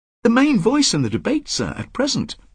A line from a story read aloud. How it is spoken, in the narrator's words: Parker said excitedly